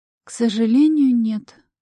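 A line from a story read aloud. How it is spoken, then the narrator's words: Sad reply. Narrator (Russian): грустно отозвалась та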